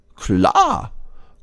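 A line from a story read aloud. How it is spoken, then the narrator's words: Called out cheerfully. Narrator (German): ruft das Eichhörnchen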